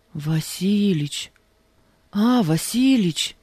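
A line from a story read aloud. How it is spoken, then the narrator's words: Ingratiating tone. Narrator (Russian): Начал заискивающим тоном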